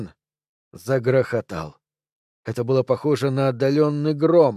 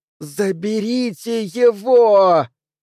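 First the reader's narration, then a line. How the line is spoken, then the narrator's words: Mental shout, full force. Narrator (Russian): Изо всех сил, так громко, как только мог, мысленно закричал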